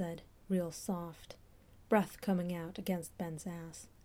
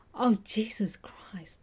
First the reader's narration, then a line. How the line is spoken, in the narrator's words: Ben panted, because that was Sean's tongue